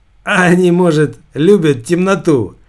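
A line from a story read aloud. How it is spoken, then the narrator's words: Said, then laughing. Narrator (Russian): сказал второй мерчендайзер и рассмеялся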